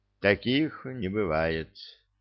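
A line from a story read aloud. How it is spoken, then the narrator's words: Sad sigh. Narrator (Russian): грустно вздохнул Гладков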